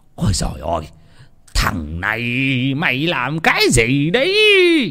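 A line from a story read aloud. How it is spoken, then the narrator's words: Old man shrieking. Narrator (Vietnamese): lão rú lên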